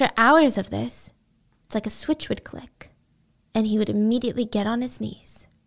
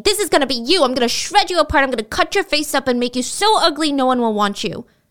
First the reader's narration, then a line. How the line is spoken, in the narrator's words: screaming